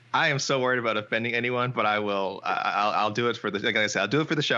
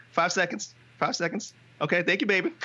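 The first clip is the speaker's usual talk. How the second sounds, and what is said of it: Impression of Heidi Dean. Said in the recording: “your best Heidi Dean impression? ... That was so good. I wasn't expecting it to be that good.”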